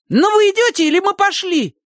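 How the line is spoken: Angry shout. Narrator (Russian): Со злостью крикнула Сонька

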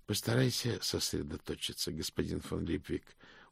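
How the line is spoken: Tired. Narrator (Russian): устало сказал ветеринарий

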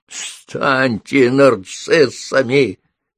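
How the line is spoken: Crazed, spiteful, hoarse croak. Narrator (Russian): безумным, злобным, хриплым голосом прокаркала она

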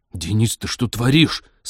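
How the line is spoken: Hissed through teeth. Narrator (Russian): сквозь зубы прошипел Станислав

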